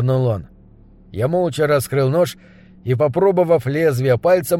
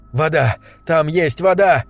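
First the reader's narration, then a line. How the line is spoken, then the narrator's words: Group crying out together. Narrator (Russian): разом вскрикнули мы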